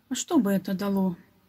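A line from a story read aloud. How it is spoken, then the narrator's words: Boy's sad reply. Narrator (Russian): грустно ответил мальчик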